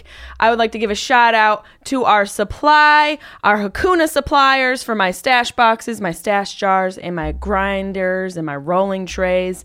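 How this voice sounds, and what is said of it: Nasal Syracuse New York accent. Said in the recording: “my nasal Syracuse accent”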